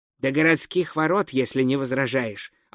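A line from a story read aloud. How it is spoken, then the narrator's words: Plain. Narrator (Russian): ответил гном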